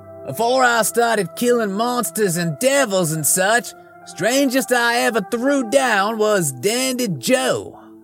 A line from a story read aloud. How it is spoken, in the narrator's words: I yelled